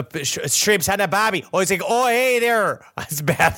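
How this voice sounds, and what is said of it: Unconvincing put-on Australian accent. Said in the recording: “You put on an Australian accent ... Australian accent ... That is the equivalent of an Outback Steakhouse when it comes to being authentically Australian ... Is that a Midwesterner mixed with an Irish person”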